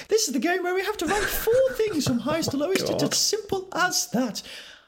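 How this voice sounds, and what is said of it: Comically high-pitched squeaky voice. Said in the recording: “in a high voice? ... Sound like Mickey Mouse. ... please scale it back. Please scale it back.”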